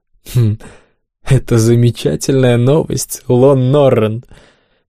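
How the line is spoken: Laughing, then breaking off. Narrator (Russian): рассмеялся, но осекся

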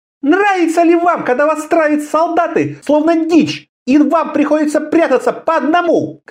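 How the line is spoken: Female robber shouting. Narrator (Russian): кричала разбойница

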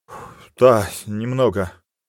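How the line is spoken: Sighing. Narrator (Russian): вздохнул рядовой

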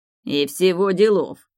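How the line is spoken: Snorting. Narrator (Russian): фыркнул Вальдор

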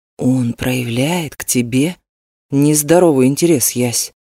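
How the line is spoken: Quiet. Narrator (Russian): тихо проговорил Крис

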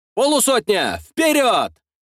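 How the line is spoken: Shouting. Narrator (Russian): кричал я

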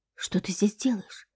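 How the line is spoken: Cautious whisper. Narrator (Russian): шепнула я ему, так как в туалете мог кто-нибудь находиться

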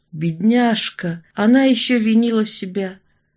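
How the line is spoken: Sighing. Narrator (Russian): Орлова вздохнула

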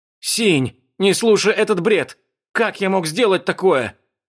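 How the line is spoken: Frantic shouting. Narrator (Russian): Суетливо закричал Лан Сююй

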